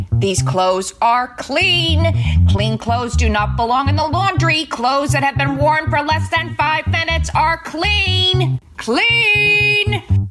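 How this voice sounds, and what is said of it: Loud emphatic yelling. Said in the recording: “The I'm not yelling, just speaking very loud for emphasis yell.”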